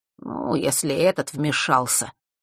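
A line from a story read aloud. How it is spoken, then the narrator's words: Through gritted teeth. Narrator (Russian): процедил Фэш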